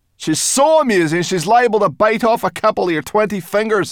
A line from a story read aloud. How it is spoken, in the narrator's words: snapped Sorrel